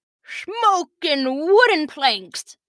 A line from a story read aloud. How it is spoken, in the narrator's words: Captain Valentino yelled